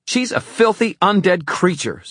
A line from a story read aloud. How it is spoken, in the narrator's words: Zara shouted